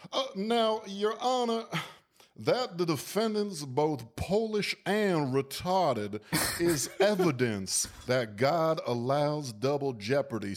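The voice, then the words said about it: Put-on Louisiana accent. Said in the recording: “you nailed the Louisiana accent too”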